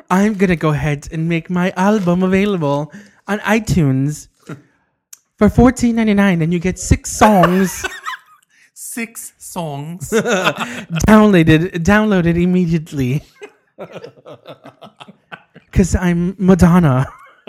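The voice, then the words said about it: Imitates another person's voice. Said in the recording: “The best impression I can make. So horrible.”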